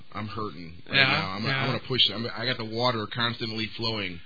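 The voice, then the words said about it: Hoarse, strained voice. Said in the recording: “my voice is shot. Can you hear how nasty I sound right now?”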